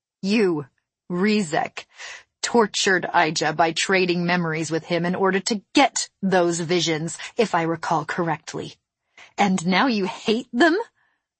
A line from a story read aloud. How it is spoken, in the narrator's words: I laughed again